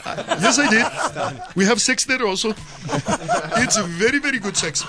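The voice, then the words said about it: Put-on Indian accent. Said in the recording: “That was a different accent. ... From the taxi driver. ... To India.”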